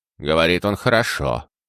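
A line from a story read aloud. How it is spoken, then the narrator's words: Grumble. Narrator (Russian): пробурчал лорд Солтаун, впервые проявляя интерес к беседе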